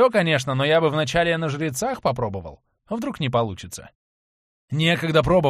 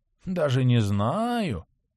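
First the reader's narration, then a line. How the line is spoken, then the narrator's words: Thoughtful drawl. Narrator (Russian): задумчиво протянул дракоша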